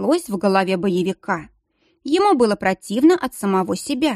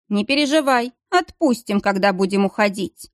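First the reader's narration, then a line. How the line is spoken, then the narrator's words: Mocking. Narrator (Russian): насмешливо пообещал Ботрик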